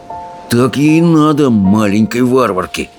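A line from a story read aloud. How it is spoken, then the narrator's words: Grumbling soldier. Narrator (Russian): проворчал солдат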